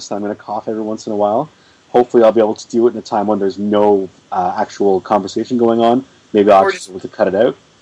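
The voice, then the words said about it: Slightly hoarse voice. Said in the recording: “I'm still sick, so my voice is going to sound a bit hoarse.”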